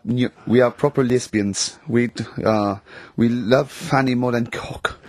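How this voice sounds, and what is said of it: Bad fake Russian accent, sounds German. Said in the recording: “you don't sound so much Russian as German ... we cannot do the accent properly”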